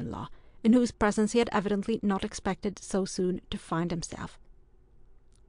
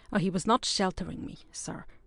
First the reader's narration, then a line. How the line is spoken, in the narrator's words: replied Hector coolly